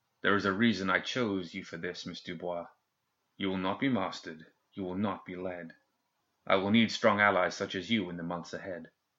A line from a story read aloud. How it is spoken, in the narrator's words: In a lowered voice, one meant only for Colette, he said